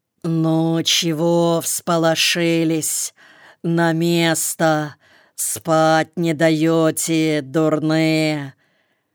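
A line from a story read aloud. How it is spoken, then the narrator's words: Sleepy man. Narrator (Russian): Сонным голосом сказал человек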